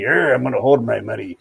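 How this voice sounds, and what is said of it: Attempted Irish accent. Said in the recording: “that was my best at Irish, not a Scottish accent”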